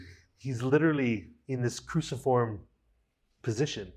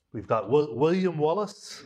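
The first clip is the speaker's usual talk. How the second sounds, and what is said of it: Weak put-on Scottish accent. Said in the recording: “my meager attempt at a Scottish accent.”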